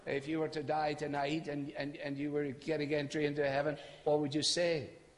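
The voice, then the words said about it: Non-local accent. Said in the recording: “he has an accent. He's not from here around here.”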